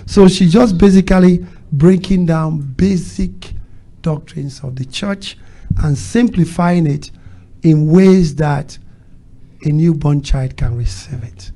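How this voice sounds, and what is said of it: Speaks with a foreign accent. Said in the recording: “when I first came to America, my accent was a problem when people are trying to listen to me ... It makes some people listen harder. It makes some people say, what did you say?”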